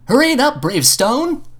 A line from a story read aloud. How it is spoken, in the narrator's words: Fridge yelled